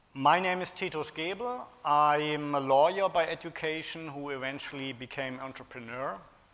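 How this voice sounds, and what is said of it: German accent. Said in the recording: “you already use the German accent ... I'm not completely as German as others might be”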